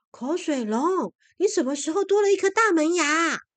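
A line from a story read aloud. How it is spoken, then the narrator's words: Surprised cries, several voices. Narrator (Chinese): 一个个吃惊的叫起来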